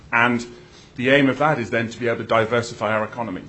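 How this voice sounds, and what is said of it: British accent. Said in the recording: “as you can guess from my accent, I'm a transplant ... go back to the UK”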